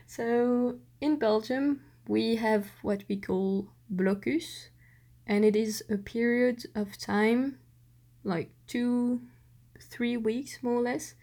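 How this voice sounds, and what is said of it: Belgian-accented English. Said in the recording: “Belgian accent, because I'm Belgian and not French”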